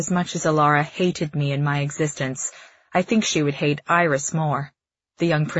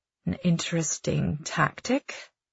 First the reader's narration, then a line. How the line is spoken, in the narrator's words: she mutters